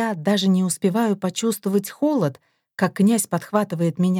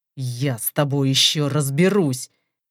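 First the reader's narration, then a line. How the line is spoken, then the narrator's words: Cold, through gritted teeth. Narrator (Russian): Цедит сквозь зубы ледяной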